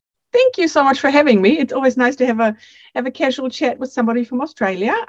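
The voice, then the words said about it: Mixed German-New Zealand international accent. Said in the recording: “that doesn't sound like a New Zealand accent ... my accent is a little bit of a mix ... an international accent”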